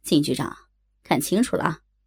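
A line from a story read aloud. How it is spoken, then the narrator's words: Cold. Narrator (Chinese): 冷冷的说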